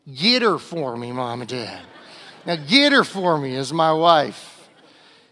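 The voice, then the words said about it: Put-on American Southern accent. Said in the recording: “This needs a southern accent here.”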